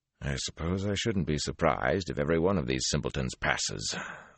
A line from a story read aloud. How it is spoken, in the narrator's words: the hawk-nosed man muttered